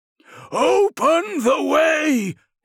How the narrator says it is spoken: cried the thaumaturge

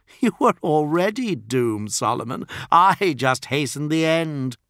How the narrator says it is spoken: Lucius laughed and said

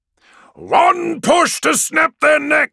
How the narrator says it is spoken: Archemus roars over the vox

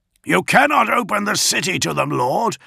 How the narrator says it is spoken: Augustine yelled

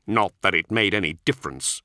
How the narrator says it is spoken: Kulik spat

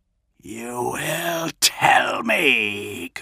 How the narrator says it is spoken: Kurz hissed, spittle flecking between his blackened teeth

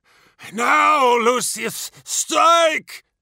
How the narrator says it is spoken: shouted Fabius

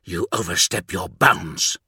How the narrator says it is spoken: hissed Vogel

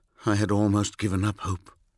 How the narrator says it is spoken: I said quietly

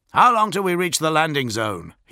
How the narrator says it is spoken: he shouted over the din

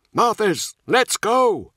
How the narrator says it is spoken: Nemiel shouted

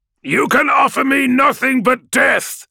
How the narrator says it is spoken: Corswain yells back

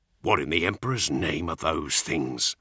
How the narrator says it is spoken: Cole hissed

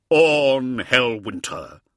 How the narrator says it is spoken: cried

